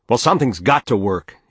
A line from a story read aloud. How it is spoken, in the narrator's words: he shouted at her